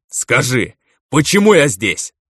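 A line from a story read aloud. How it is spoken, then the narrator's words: Barked. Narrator (Russian): рявкнул калека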